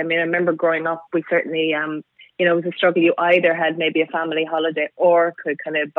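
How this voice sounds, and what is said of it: Irish accent from Cork. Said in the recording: “So you can tell by my accent. ... It was a bit of a giveaway. ... I was born in Ireland, in Cork, so way down the southern tip of Ireland.”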